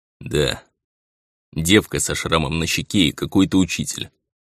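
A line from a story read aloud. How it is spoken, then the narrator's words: Grumble. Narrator (Russian): проворчал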